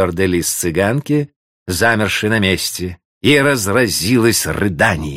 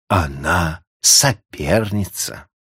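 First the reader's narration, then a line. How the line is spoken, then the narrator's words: Bitter inner whisper. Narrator (Russian): А другой, еще более горький голос шептал ей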